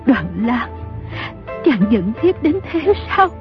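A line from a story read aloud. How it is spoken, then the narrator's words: Trembling question. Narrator (Vietnamese): Dương phu nhân run rẩy hỏi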